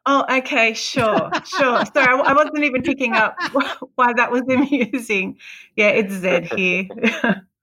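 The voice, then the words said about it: Australian accent. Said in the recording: “she had a wonderful accent too. Wonderful accents. ... Southern Hemisphere ... down under.”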